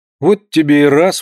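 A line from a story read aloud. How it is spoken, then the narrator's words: Exclaiming. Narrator (Russian): воскликнул он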